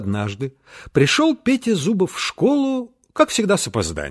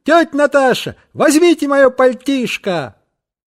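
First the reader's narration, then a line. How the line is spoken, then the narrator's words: Shout. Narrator (Russian): крикнул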